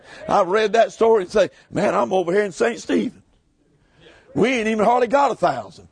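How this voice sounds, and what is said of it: Speaks with African American dialect. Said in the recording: “they say, you talk like a black man. Well, the town I'm in is black.”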